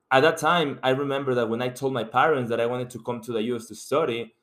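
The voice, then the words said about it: Mexican Spanish accent in English. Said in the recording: “I'm coming from Mexico, and you can tell by my accent that English is not my first language”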